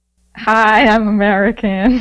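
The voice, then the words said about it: Put-on American accent. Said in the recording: “Can you do an American accent?”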